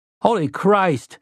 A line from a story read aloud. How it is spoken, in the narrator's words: Eddie cried